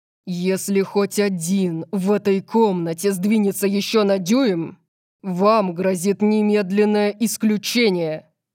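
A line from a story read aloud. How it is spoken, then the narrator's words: Ferocious roar. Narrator (Russian): Взревел Орион, и вся стеклянная крыша задрожала от его свирепого тона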